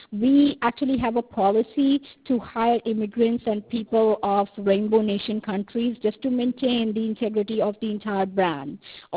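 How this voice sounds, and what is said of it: Non-native English accent. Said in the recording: “I noticed that all four of you have an accent. So is English not your first language? ... English is my second language ... I'm from South Africa.”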